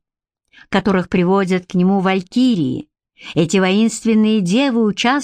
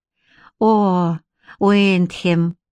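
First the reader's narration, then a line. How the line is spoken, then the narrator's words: Sighing. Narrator (Russian): вздохнула Бренна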